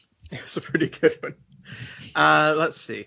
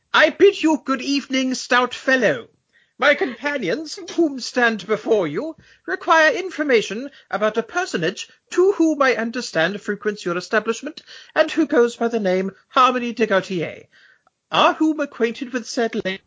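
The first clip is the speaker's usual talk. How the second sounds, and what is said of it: Put-on posh English accent. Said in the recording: “Americans love the English accent ... They're particularly impressed by people who say whom a lot.”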